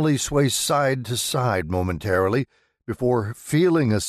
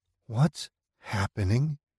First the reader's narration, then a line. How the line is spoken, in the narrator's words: She whispers